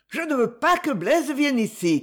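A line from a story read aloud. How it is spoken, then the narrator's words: Shouted. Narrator (French): criait-il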